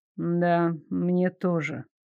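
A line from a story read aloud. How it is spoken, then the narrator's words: Mumbled. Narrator (Russian): пробормотал Дарек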